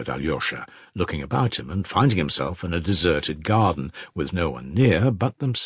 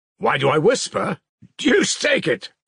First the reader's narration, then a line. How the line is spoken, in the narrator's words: cried Dmitri at the top of his voice